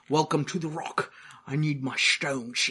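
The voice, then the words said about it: Scottish accent impression. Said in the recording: “Sean Connery ... although not with like an Australian accent. ... I think that passed to Scottish enough.”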